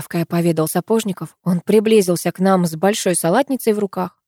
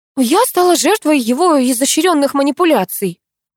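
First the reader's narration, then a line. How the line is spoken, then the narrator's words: Offended. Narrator (Russian): обиженно произнесла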